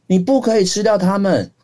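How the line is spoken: Loud shout. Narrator (Chinese): 鼹鼠大喊

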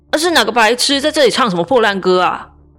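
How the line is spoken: Angry roar. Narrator (Chinese): 珊珊在那边怒吼说

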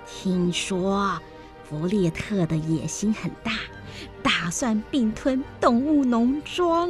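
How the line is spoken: Hushed, mock-mysterious. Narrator (Chinese): 史奎尔故作神秘地压低嗓门说

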